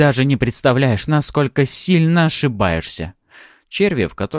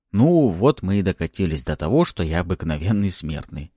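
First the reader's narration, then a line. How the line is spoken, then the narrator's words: Quiet wry remark. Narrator (Russian): тихо произнес и усмехнулся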